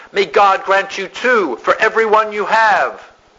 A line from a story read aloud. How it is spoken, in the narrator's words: Ninny John shouts out